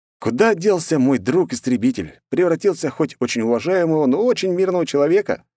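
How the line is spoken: Snorting. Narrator (Russian): хмыкнул я

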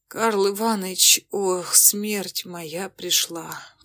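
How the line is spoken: Muffled moan. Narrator (Russian): Как-то глухо застонал Ватрушкин

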